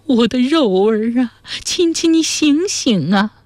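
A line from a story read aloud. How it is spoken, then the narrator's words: Panicked crying. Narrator (Chinese): 娘惊慌无措，嘴里不停地哭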